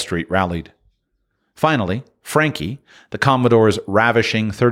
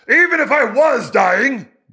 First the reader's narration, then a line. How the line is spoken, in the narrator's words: the voice bellowed